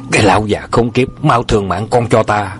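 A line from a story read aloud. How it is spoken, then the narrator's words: Furious loud shout. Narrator (Vietnamese): Khi thấy ông già hút thuốc làm cháy áo của Hoàng Cố thì không nén được cơn giận dữ, quát to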